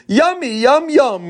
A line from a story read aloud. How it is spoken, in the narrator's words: Rachelea exclaimed